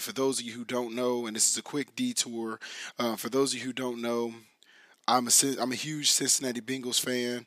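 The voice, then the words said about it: Raspy, hoarse voice. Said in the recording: “my voice is a little bit raspy ... my voice is still coming back in”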